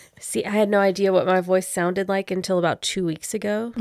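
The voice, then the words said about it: Deep, husky voice. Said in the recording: “you have nice deep ... deep ... voices ... why do I sound so husky? ... sultry.”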